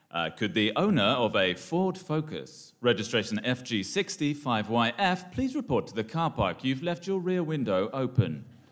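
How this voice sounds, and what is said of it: Formal service announcer voice. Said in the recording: “do my service announcer voice.”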